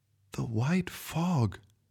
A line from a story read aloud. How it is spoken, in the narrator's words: she whispered, remembering her grandfather tell her about it